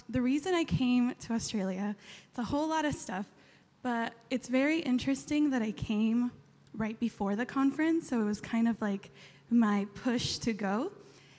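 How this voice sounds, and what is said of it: Californian American accent. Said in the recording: “clearly I'm from San Diego, I'm from California, you can tell by the accent.”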